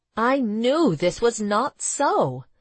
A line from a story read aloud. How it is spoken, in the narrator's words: Pearl cried in frustration at the doctor's diagnosis